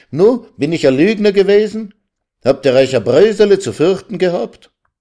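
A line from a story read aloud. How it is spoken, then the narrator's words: Calling out. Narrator (German): rief er ihnen sogleich entgegen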